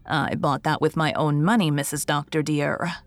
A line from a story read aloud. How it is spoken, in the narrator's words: said firmly